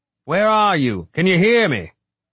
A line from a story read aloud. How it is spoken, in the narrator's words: he said loudly